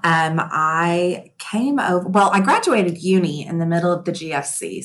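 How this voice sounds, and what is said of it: Texan American accent. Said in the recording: “tell me about your accent. You are a Texan”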